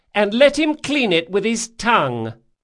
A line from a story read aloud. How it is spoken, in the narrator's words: she shouted